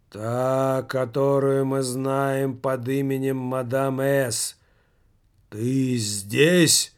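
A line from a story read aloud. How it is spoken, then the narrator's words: Ominous voice. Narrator (Russian): зловещим голосом произнес Михалыч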